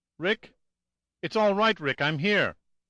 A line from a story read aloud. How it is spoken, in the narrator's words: Jill called out